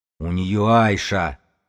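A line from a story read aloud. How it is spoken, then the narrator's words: Roared. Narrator (Russian): взревел Додо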